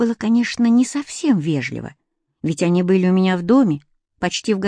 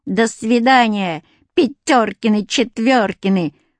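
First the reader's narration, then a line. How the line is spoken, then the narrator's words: Sung in funny voice. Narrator (Russian): пропела смешным голосом Люська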